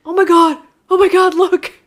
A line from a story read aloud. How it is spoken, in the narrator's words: remember you screaming